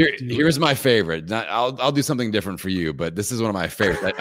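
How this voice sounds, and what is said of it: Usual voice. Nothing is said of it.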